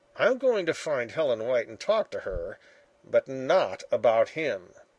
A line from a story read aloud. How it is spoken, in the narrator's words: he muttered